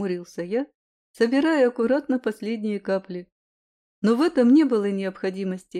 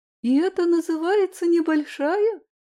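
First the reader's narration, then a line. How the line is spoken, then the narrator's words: Shocked exclamation. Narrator (Russian): воскликнула шокированная Май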